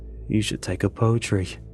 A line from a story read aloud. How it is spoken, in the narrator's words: Amir mutters